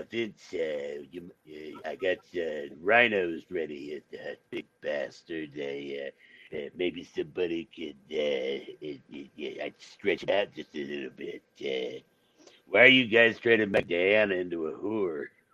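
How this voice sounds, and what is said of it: Impression of Stu Hart. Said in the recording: “to do a Stu Hart impression”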